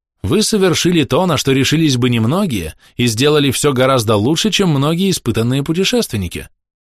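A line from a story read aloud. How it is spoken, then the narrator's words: Plain. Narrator (Russian): сказал Ливингстон Стэнли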